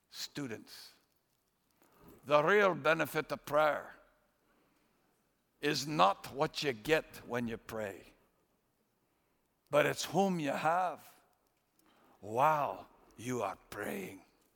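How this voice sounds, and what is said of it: Put-on Scottish brogue. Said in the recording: “I'm not very good at Scottish brogue, but that's how he used to do it.”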